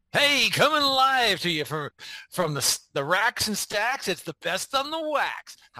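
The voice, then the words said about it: Exaggerated radio DJ voice. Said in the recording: “putting on my best DJ voice.”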